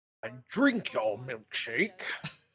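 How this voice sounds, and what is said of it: Imitates a film character's voice. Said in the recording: “You do a better voice. Do the voice. ... It's a really good. There will be blood. Guy.”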